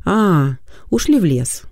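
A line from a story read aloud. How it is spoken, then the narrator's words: Calm explanation. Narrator (Russian): спокойно объяснила Полина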